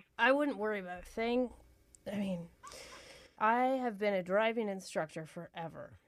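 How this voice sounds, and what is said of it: Out of breath, strained voice. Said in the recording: “You sound out of breath.”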